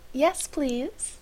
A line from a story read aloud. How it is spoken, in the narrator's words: Miles said sweetly